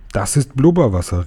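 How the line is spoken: Called proudly. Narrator (German): rief er und hielt die Flasche stolz in die Höhe

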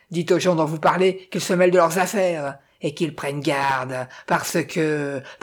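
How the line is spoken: Growled. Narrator (French): gronda-t-il

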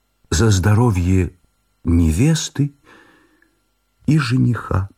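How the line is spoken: Solemn joyful trembling voice. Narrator (Russian): Олимпиада Васильевна, торжественная, радостная и взволнованная, дрогнувшим голосом произнесла

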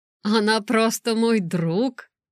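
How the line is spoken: Embarrassed laugh. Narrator (Russian): он засмеялся смущенно

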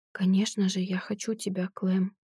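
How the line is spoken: Trembling voice. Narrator (Russian): добавляю я дрогнувшим голосом

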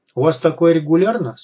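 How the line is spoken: Plain. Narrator (Russian): спросил Вадим

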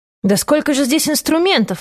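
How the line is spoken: Exclaimed. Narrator (Russian): воскликнул он

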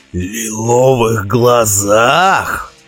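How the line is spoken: Forced out with difficulty. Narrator (Russian): с трудом выдавил он

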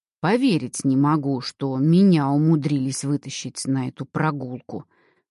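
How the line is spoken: Grumbling. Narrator (Russian): ворчал Карл

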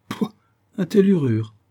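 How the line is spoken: Exclaiming. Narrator (French): s'écria Ben Zoof

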